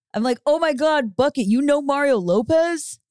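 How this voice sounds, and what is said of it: Made-up deep character voice. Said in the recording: “I'd make up a voice ... I have a deep voice.”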